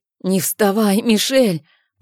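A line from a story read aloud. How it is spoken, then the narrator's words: Hoarse rasp. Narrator (Russian): прохрипела я мальчику в ответ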